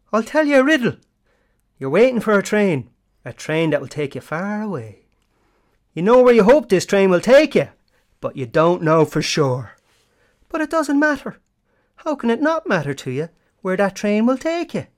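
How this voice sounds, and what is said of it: Put-on leprechaun-style Irish accent. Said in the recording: “a line from this famous film in a Leprechaun accent”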